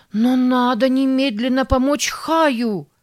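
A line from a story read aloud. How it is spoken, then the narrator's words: Desperate shout. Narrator (Russian): в отчаянии закричала Сара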